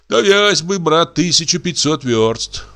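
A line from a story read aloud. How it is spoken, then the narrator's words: Sighing. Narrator (Russian): вздохнул Брама Глинский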